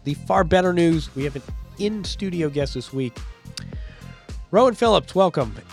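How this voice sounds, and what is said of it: Slightly congested voice from a cold. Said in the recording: “I have a bit of a cold.”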